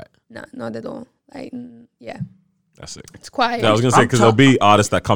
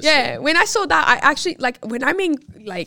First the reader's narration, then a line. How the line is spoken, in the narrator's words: I cried